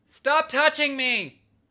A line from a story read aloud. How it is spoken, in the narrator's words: screamed one of the young Canadian women shortly after being revived